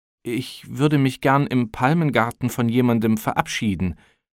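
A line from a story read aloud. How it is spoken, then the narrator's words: Embarrassed stammering. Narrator (German): brachte Arkadi nur stotternd heraus, als sei es ihm peinlich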